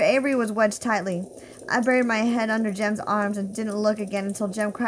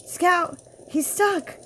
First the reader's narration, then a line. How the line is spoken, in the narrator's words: breathed Jem